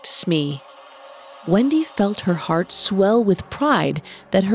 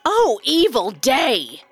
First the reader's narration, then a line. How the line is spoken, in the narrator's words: cried Starkey